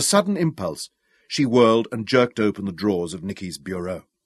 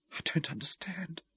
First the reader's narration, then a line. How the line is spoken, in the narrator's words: whispered